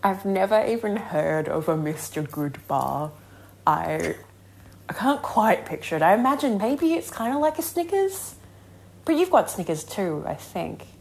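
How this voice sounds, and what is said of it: Speaker with a foreign accent. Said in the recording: “With her accent? ... It's got her accent.”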